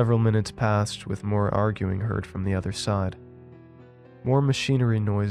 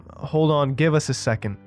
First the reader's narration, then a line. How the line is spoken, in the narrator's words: the same female voice yelled in a way that we could tell she was cupping her mouth to the door so we could hear better